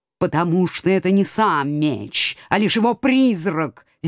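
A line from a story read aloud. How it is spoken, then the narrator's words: Restrained, through gritted teeth. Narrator (Russian): сдержанно процедил кот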